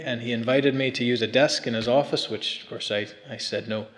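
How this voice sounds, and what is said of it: American accent. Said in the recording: “My accent's not from here. ... I came over from the States”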